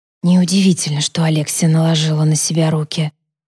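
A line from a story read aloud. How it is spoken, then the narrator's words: Whisper. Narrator (Russian): прошептала Сара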